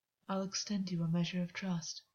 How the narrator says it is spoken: August said softly

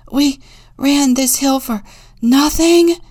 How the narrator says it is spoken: the eldest wheezed

